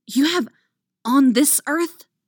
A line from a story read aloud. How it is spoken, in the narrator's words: she hisses at him